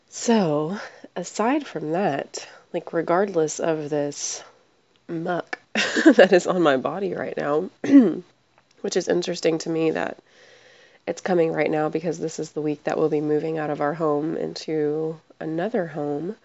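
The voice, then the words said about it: Sick, slowed, strained voice. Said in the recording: “I am not feeling well... just like a head cold feeling or allergies... pardon the way my voice sounds right now and the way I'm having to kind of slow down and speak a little bit. My throat is bothering me.”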